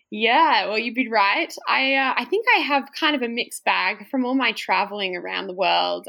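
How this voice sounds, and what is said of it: Australian accent with American twang. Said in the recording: “a little bit of an American twang in your Aussie accent”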